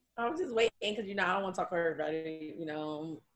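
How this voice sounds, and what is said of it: Texan country accent. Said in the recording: “we are a country out here. Do not judge my accent... Say Texas... I stay in Houston”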